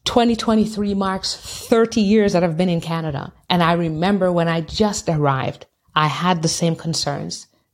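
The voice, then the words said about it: Non-native English accent. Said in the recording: “They're going to hear my accent. They're going to know I'm not from here.”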